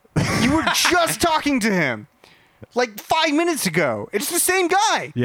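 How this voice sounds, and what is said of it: Usual voice. Nothing is said of it.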